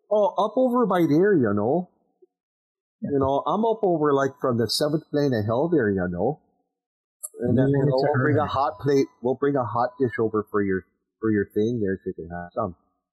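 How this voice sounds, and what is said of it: Put-on Scandinavian-American Midwestern accent. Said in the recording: “she speaks with a Scandinavian-American accent. She sounds a little like this. ... Talks like the mom from Bobby's World with all the G's.”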